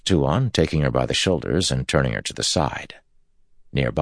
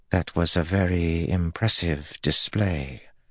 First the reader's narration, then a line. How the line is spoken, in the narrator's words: Tuan said softly